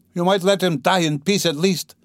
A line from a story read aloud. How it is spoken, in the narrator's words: she shouted at the crowd